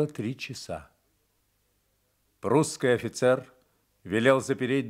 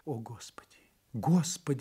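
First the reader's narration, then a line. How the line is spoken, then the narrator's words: Whispered. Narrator (Russian): шептала Франсуаза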